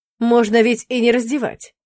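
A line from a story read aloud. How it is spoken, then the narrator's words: Angry. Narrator (Russian): зло сощурился он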